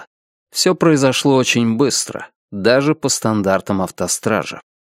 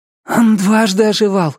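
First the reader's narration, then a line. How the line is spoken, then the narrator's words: Hoarse strained voice. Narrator (Russian): вставила Тиффани хриплым от напряжения голосом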